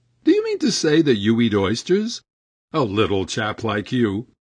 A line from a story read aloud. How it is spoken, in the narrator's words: laughter